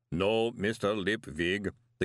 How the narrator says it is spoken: the golem rumbled

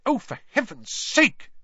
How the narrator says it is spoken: she snapped

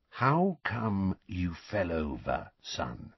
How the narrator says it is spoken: said Uncle Vernon, in an unnaturally quiet voice, the kind of voice he might adopt at the bedside of a very ill person

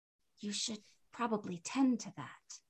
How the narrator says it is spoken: I said softly

